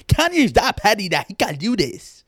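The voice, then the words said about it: Made-up random accent. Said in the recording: “Jesus, I just started speaking another... Just started speaking in a random accent... I don't know what accent that is. I just made it up.”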